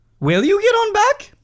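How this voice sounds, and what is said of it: Small mousy voice from big creature. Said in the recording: “in a very meek voice.⟧ Not meek. Meek is the wrong way to describe it. In a voice, like the voice of a mouse coming out of a lion.”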